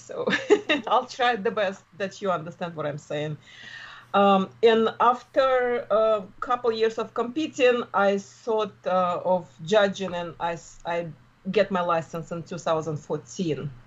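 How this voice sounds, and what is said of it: Russian accent. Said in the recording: “you don't sound like you're from New Jersey ... originally from Russia ... I just will have my accent. I guess it's never go away.”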